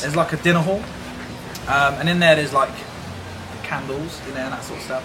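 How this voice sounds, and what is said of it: British accent. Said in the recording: “I'm from the UK. The lovely British accent. But I'm from Oxford.”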